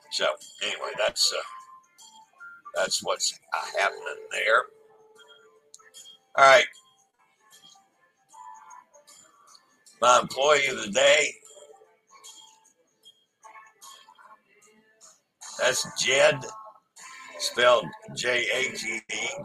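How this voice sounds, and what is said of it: Raspy, hoarse voice. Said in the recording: “has decided to really aggravate my throat, and I'm coughing like nuts ... because I'm very raspy because I've coughed a lot”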